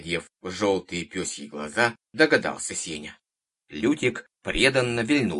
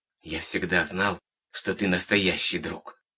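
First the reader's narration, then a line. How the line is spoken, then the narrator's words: Drowsy mumble. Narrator (Russian): пробормотал Сеня, снова впадая в забытье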